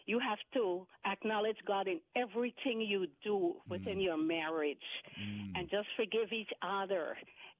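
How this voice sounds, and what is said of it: Guyanese accent. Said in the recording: “is that an island accent I'm picking up or what? ... Yes, it is. ... it's a former British colony. ... Guyana”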